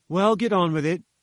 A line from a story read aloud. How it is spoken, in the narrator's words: said I